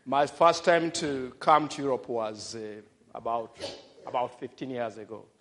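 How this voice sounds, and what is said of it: African accent. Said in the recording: “my accent may not be so clear to everybody, because I'm African and I grew up in Africa”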